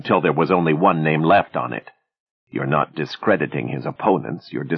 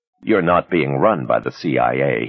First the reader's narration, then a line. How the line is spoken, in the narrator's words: he said flatly